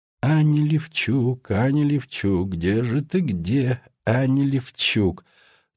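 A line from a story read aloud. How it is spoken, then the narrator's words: Half-muttering, half-singing. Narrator (Russian): То ли бормотал, то ли напевал он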